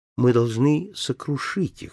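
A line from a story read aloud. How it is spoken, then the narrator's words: Fierce whisper. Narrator (Russian): шепнула Дэзи, свирепо подмигивая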